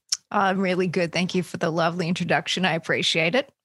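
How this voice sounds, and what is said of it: Australian accent. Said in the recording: “I hear an Australian accent”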